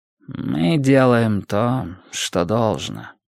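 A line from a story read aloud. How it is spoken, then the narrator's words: Weary reply. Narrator (Russian): устало ответил Сайлос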